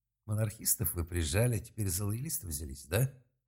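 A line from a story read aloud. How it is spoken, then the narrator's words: Thoughtful mutter. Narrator (Russian): пробормотал Малк задумчиво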